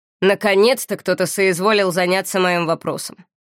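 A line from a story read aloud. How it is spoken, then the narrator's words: Man's snorting remark. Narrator (Russian): хмыкнул мужчина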